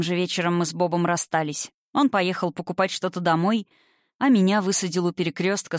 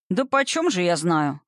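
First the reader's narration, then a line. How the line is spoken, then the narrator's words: Snorting man. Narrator (Russian): хмыкнул мужчина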